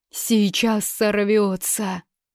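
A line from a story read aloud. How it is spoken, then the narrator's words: Breathless exclamation. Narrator (Russian): выдохнул кто-то в толпе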